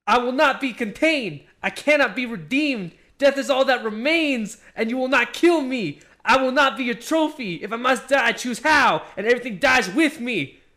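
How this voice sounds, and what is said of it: Reading in a rapper voice. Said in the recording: “in his fucking rapper voice ... Dude, that's literally rap. ... He's literally rapping.”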